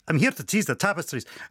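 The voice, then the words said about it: Put-on Scottish accent. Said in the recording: “pretends to be a Scottish count”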